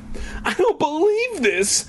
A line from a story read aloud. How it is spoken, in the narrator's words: Sherry wailed